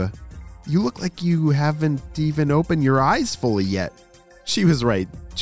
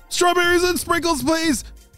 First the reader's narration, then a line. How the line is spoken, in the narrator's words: shouted Jaden